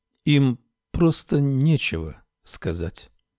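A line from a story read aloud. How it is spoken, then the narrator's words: Slow speech. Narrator (Russian): медленно проговорила Камилла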